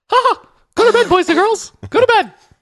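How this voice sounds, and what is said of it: Mickey Mouse cartoon voice impression. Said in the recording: “does a great Mickey Mouse impersonation ... can you have Mickey Mouse tell us to go to bed?”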